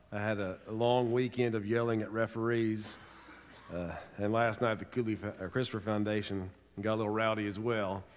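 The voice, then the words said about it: Rough, hoarse voice. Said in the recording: “My voice is a little rough.”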